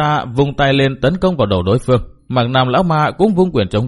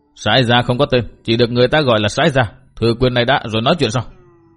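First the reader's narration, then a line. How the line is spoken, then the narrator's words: Monk's loud shout. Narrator (Vietnamese): Túy Hòa Thượng quát lớn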